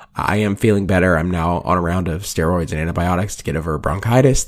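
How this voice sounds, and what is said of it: Hoarse, raspy, nearly lost voice. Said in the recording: “my voice is absolutely gone ... my raspy, horsey voice ... my voice is pretty gone”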